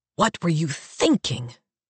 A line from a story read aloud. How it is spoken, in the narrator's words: Ephraim hisses in my ear